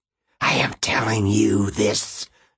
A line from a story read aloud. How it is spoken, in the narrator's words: Alice hissed